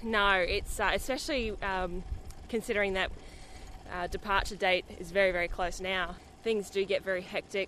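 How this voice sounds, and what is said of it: Slightly out of breath. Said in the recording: “you're a little bit out of breath, not a great deal though ... I'm a little bit out of breath now. I'm just sitting here on the rollers”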